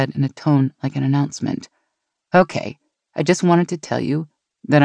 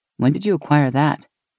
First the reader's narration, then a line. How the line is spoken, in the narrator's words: Meg laughed